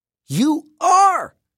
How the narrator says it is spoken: she screamed

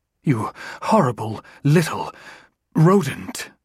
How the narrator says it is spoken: Tucka hissed

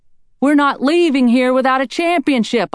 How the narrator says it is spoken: shouted hoarsely

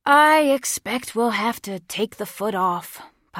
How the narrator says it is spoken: Papa said with a sigh

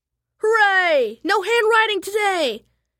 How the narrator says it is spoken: yelled Pinky

